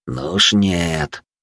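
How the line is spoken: Ghost speaking through teeth. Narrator (Russian): процедил призрак сквозь зубы

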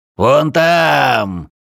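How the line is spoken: Shouted. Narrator (Russian): крикнул темный

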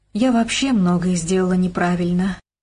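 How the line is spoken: Sighing. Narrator (Russian): вздохнула Вера

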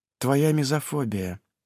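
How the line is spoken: Quiet sigh. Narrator (Russian): тихо вздыхает она

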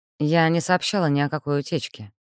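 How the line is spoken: Plain. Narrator (Russian): ответила Элли

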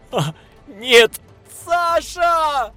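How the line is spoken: Yelling. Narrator (Russian): Заорал я

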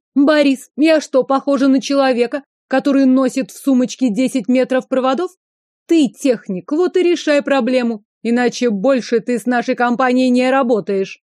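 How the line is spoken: Shrieked. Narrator (Russian): взвизгнула Инна

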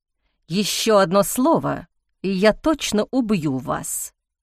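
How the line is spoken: Hiss. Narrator (Russian): прошипел Ник

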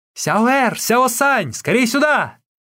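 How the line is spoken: Shout. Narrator (Russian): крикнула

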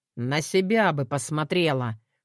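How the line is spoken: Snorting. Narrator (Russian): фыркнул

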